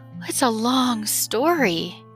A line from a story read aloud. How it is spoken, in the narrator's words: sighed the cricket